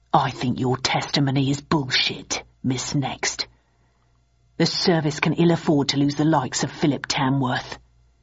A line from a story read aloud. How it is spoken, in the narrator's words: whispered to me